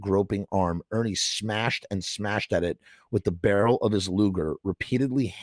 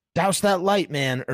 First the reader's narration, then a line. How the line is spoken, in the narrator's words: Ernie yelled